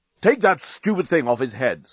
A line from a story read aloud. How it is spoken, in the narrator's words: snapped Bolfast